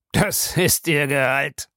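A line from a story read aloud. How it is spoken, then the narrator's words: Mocking. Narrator (German): sagte Bellamy spöttisch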